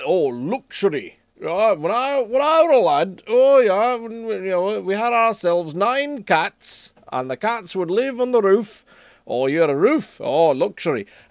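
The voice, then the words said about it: Put-on Yorkshire accent. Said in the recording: “I'd like to hear your Yorkshire accent ... the 4 Yorkshiremen sketch”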